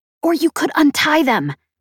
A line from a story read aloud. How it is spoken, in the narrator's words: I hissed